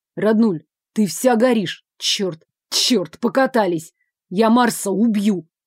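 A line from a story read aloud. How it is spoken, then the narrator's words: Growled, brother. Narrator (Russian): прорычал брат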